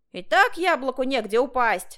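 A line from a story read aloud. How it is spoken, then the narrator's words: Shouting. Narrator (Russian): закричали на нас в тамбуре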